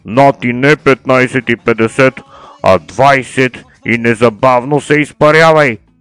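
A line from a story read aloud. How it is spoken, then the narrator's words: Roaring. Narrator (Bulgarian): Изрева Пандев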